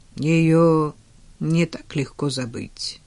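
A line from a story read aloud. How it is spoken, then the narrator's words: Grim, smiling. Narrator (Russian): мрачно улыбнулся Стивен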